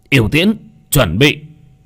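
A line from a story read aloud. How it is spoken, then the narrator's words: Loud shout. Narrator (Vietnamese): Yêu tướng quát to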